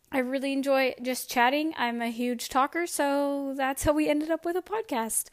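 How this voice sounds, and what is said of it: Slightly hoarse, fading voice. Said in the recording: “I am losing my voice a little bit. I think I'm kind of getting sick ... I needed to stop and cough or clear my throat”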